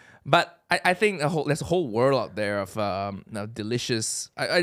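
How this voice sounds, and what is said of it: Usual voice. Nothing is said of it.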